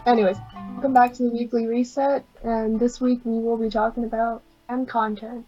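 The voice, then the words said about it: Weak, worn-out voice. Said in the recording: “My voice is dead today.”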